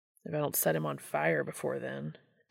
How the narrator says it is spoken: Dean grumbled under his breath

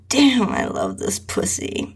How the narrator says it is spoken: He moaned

